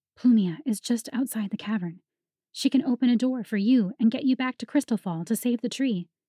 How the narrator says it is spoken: Clara edged back until she stood close enough to Revan to whisper

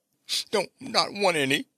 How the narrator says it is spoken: whimpered Bobby

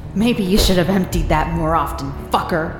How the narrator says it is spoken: I spat

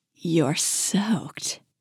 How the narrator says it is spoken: Simone murmured

